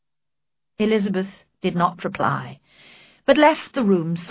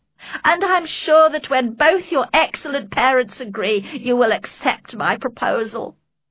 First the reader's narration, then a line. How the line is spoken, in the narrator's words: he cried